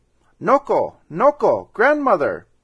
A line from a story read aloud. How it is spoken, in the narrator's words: he cried